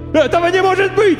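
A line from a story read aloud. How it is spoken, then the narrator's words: Wailing homeless man. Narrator (Russian): вопил бомж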